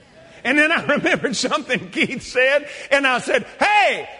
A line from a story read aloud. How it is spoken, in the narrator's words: I hollered out loud